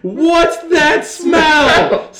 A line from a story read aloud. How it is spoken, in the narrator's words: yelling